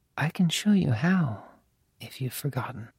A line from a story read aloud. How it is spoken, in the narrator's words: she breathed